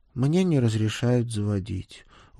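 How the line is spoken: Glum boy's admission. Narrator (Russian): уныло признался мальчик

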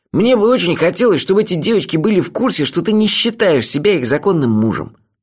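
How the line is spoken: Grumbling. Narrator (Russian): наконец проворчал он

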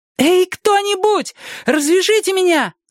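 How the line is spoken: Shouting woman. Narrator (Russian): закричала она

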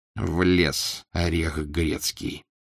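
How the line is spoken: Annoyed muttering. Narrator (Russian): досадливо пробормотал обершталмейстер

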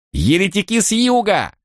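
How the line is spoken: Frantic screaming. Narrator (Russian): он истошно завопил

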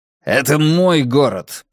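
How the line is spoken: Growled. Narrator (Russian): прорычал Брекер

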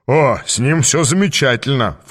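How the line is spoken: Snort. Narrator (Russian): фыркнул смотритель

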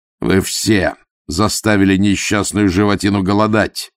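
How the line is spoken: Barked. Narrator (Russian): рявкнул он

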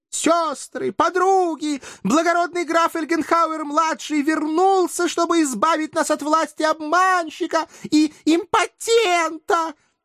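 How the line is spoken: Hysterical ecstatic screaming, from above. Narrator (Russian): Истерически орала, едва ли не захлебываясь от восторга, какая-то девица, свешиваясь с большого балкона

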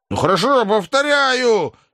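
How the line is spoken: Hoarse, stunned. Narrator (Russian): Сиплым голосом ответил совершенно пораженный Шариков

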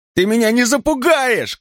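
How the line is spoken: Son shouting. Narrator (Russian): кричал сын

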